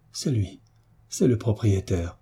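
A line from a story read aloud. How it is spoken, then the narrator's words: Trembling frightened murmur. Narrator (French): murmura la pauvre créature, en frémissant de tous ses membres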